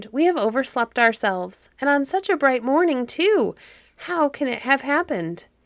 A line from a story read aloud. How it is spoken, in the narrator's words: exclaimed